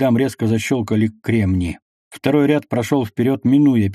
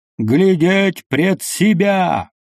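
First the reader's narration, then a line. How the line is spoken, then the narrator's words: Wild shout. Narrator (Russian): диким голосом закричал Петр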